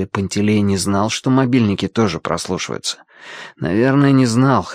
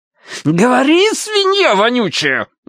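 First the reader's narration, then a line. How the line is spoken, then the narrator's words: Shrill shriek. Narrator (Russian): взвизгнул красавчик Дима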